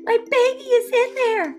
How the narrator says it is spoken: cried

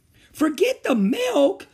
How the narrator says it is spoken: she cried

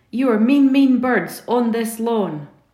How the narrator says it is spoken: he shouts

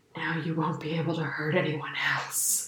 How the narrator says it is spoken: whispers

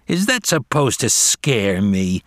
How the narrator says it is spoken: sneered Julius

